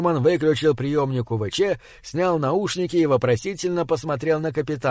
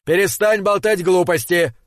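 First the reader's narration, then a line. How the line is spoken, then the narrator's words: Exasperated yelling. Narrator (Russian): заорал Макнаут, теряя всяческое терпение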